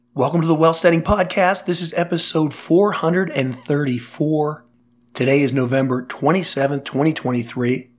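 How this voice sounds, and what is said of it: Voice not fully recovered. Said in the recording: “you can hear my voice is getting better, but I'm still far from 100%.”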